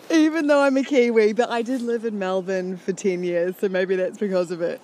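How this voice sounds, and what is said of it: Australian accent. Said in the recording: “you have such an Australian accent”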